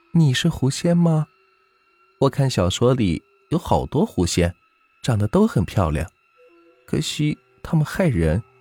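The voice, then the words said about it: Quiet, murmured speech. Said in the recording (Chinese): “小声的嘀咕道”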